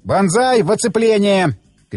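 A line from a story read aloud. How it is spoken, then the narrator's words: Shout. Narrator (Russian): крикнул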